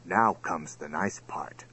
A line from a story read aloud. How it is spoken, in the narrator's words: whispered Lord Voraz